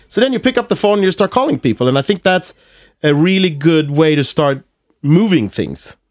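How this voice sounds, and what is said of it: Swedish Skåne accent in English. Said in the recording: “my accent. You know, I'm from Malmö, so I have this, I speak skånska. ... that accent”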